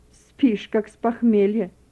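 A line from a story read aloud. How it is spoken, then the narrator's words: Displeased grumbling. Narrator (Russian): недовольно ворчала она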